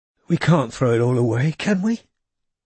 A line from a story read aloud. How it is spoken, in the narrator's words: he had asked her hoarsely, from the bed where the doctor had insisted he stay